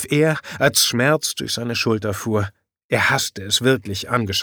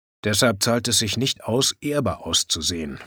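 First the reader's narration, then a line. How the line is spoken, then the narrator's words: Grumbling mutter. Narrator (German): brummelte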